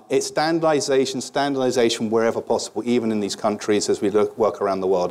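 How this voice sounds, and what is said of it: British accent. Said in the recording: “as you can tell from the accent, about 15 years ago, I came to America ... British tie”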